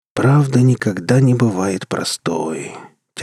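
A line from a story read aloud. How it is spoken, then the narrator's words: Heavy sigh. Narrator (Russian): тяжко вздохнул Рур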